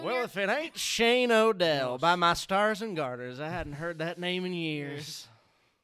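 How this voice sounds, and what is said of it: Put-on Southern US accent. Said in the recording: “I don't know why I'm doing a southern accent ... I'm doing it for the podcast.”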